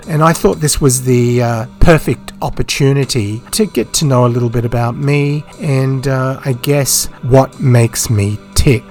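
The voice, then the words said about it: Croaky voice dropping in and out. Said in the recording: “my voice is a little bit croaky and it's kind of dropping in and out”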